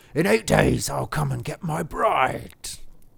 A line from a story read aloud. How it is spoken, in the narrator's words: the beast shouted back to him